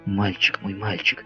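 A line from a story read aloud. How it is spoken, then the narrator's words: Whisper. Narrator (Russian): шептала Элен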